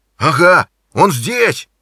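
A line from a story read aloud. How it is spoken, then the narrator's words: Shout. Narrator (Russian): закричал он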